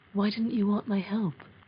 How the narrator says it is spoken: he asked

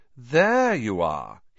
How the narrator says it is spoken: he drawled

